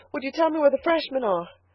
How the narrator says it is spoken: she panted

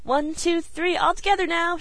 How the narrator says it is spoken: she cried

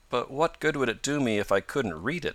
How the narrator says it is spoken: asked Tom

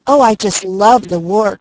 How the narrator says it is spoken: cried Malcolm

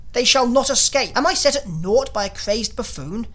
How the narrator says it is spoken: Cried the King of Gosh

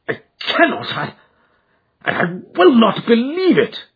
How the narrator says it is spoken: cried

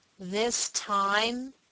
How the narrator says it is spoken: he spoke aloud and through his teeth

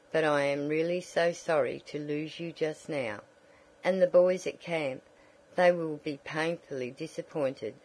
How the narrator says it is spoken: said Mrs

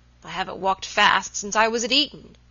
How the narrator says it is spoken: he murmured, as he hurried

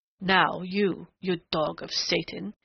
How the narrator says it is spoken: he snarled in a sudden snapping of restraint

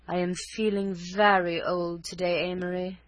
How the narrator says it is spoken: would sigh, a rare cameo of pathos, her voice exquisitely modulated

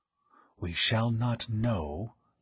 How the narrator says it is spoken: he breathed

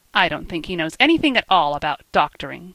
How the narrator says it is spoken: said Oscar scornfully

